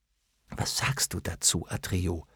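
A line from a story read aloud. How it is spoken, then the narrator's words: Whisper. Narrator (German): flüsterte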